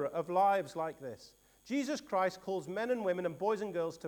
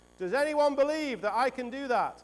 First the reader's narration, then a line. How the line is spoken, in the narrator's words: He shouted again